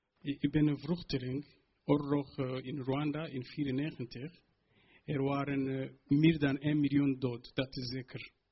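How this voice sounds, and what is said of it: Non-native accent speaking Dutch. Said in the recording (Dutch): “eerst voor mijn taal, met accent en alles”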